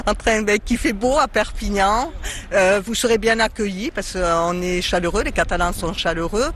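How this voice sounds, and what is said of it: Southern French Catalan regional accent. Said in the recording (French): “votre accent nous transporte”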